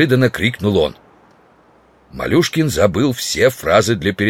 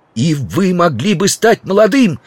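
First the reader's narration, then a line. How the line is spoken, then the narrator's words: Shouting. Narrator (Russian): кричал Стендаль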